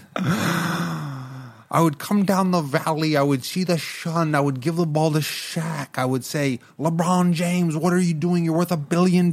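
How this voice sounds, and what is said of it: Imitates another person's voice, poorly. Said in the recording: “That was a bad impersonation.”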